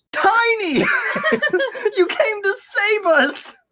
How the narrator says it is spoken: Raisin exclaimed, his voice filled with excitement

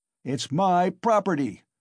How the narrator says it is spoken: shouted Mikolka

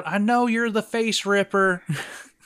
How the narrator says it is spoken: He yells out

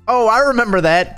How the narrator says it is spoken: Katie said excitedly

